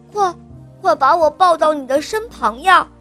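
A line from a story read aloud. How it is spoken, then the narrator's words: Loud cry. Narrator (Chinese): 他大声地叫道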